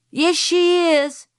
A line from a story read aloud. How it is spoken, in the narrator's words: shouted Francis